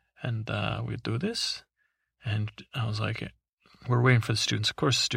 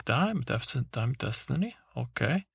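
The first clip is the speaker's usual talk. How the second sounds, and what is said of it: Fake Swedish-ish accent. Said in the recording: “I don't do a Swedish accent because I wouldn't even... I'm not sure if that's even Swedish... I guess I'll do a fake accent”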